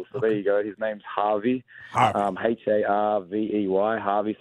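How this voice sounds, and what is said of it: Strong Australian accent. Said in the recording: “Sometimes my accent gives uh, um, people off a little bit ... I want to be Australian ... he's very Australian. Exactly how Australian I hoped he was”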